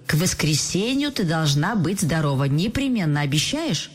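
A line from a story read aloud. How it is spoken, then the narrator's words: Cheerful declaration. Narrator (Russian): Таня весело заявила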